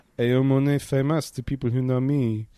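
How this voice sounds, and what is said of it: Thick French accent imitating Michel Gondry. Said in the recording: “in his ridiculously thick French accent”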